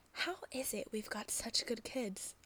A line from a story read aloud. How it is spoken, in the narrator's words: he muses in a whisper